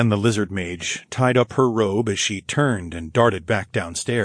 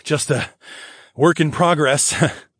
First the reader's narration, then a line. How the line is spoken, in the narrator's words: I chuckled